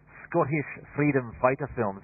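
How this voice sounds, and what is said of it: Put-on Scottish accent. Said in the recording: “that's all the accent that I'm going to give you this morning because it doesn't matter where the accent starts, it always very quickly ends up sounding Pakistani”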